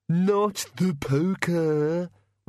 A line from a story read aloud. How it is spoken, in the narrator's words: whined the bogeyman